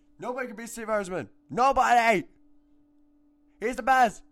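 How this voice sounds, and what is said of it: Screaming loudly. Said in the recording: “screaming into the camera or the microphone”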